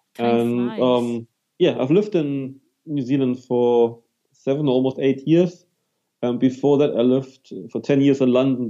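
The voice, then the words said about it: German accent. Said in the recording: “as you can hear, I'm from Germany originally, so I can't hide my accent.”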